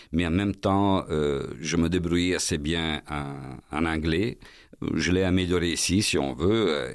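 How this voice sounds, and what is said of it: Italian accent speaking French. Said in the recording (French): “toujours avec mon accent italien, c'est évident, vous pouvez le remarquer”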